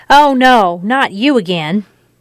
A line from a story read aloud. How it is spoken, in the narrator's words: Frohmeyer said